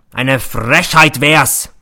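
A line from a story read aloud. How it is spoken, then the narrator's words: Roaring. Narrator (German): brüllt er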